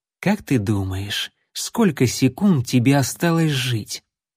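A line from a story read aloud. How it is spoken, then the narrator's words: Quiet, sinister voice. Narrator (Russian): Убийца зловеще улыбнувшись, тихо произнес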